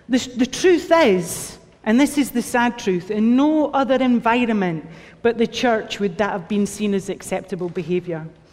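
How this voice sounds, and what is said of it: Speaks with a noticeable accent. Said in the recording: “get you used to my accent”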